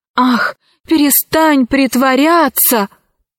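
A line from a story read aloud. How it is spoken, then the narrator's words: Exclamation. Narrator (Russian): воскликнул Арсекки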